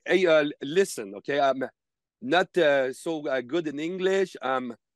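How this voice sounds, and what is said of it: Exaggerated broken English accent. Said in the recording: “taking my worst English accent”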